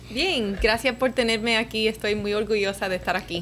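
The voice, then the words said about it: Cuban Spanish accent. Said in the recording (Spanish): “Me encanta tu acento. ... cubana.”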